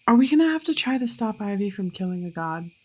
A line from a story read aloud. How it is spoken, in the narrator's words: He sighs